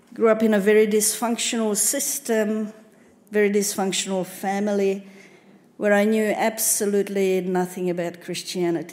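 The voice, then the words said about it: Hungarian accent. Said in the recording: “as you can judge by my name and my accent, you can say I wasn't born here. ... I come from Hungary”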